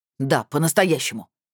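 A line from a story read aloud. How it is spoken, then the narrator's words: Barked. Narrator (Russian): рявкнул участковый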